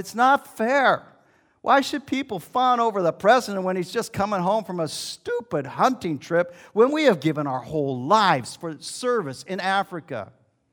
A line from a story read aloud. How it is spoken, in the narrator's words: The old man cried to his wife